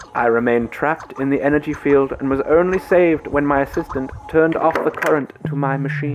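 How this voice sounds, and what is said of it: Put-on Eastern European accent. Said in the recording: “I'm living for this accent... it's good... it's brilliant... Eastern European... Hungarian, maybe... He did have an accent.”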